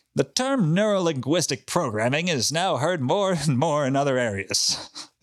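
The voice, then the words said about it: Smarmy imitated voice. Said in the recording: “do a Phil Hartman voice ... it's the smarmiest”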